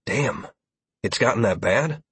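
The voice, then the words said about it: Disbelieving tone. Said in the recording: “I could hear the disbelief in my voice.”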